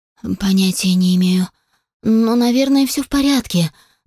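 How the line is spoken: Trembling voice. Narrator (Russian): дрожащим голосом ответила Сара

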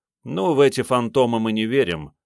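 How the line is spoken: Plain. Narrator (Russian): сказал Синельщиков

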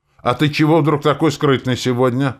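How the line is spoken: Snapped back. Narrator (Russian): огрызнулся Кер

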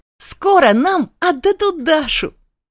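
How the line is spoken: Joyful announcement. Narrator (Russian): радостно сообщает подруга

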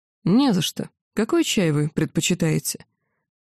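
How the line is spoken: Lord's polite cold question. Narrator (Russian): Учтиво, но холодно поинтересовался владыка

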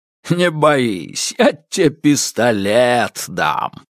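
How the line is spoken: Laughing big brute. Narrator (Russian): хохотнул громила

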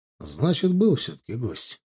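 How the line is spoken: Quiet question. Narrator (Russian): спросил я негромко

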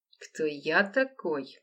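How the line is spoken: Cold, through clenched teeth. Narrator (Russian): процедил черный человек своим холодным голосом

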